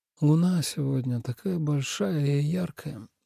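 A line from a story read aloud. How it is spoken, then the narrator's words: Sleepy mutter. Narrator (Russian): сонливо пробормотал Тобиас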